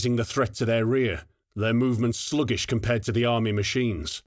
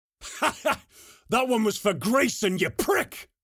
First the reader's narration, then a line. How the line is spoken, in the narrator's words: yelled Braga